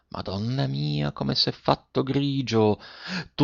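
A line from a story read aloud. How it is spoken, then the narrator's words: Soft. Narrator (Italian): disse piano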